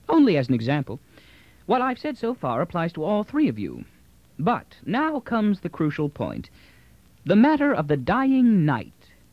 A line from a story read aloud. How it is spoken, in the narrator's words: Earth said blandly